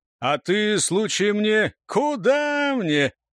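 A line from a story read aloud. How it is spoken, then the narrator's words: Loud laughter, young man. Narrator (Russian): захохотал молодой Турс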